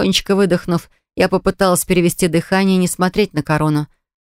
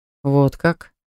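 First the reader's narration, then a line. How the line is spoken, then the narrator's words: Slightly mocking. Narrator (Russian): спросил его величество немного насмешливым тоном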